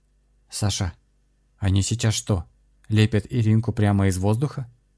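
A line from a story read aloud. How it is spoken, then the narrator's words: Timid question. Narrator (Russian): робко спросил Денис у шамана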